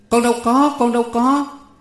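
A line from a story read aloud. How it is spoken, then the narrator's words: Crying out. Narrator (Vietnamese): Con Sửu kêu lên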